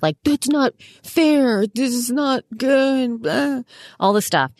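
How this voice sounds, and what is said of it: Whiny complaining voice. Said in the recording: “an impression of every whiny podcaster”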